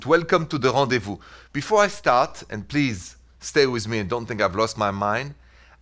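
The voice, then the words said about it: Thick French accent. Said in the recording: “I'm French origin, but I'm an American citizen like you, with a thick French accent.”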